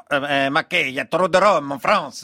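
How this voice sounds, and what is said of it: Character voice with Italian accent. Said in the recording (French): “Edith l'esthéticienne, mais avec un accent italien et une ambiance western”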